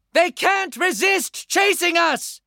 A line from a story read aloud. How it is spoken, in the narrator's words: Flower Sun shouted